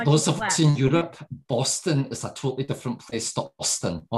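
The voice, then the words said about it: Scottish accent. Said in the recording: “the accent”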